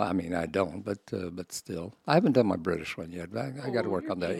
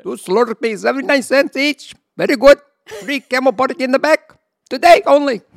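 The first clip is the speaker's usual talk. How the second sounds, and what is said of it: Put-on Indian accent. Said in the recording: “Indian one, I got to work on it, but I'm pretty good”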